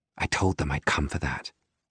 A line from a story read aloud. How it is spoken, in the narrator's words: she whispers